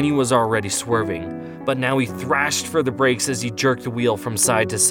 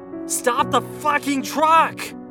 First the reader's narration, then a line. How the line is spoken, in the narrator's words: I finally yelled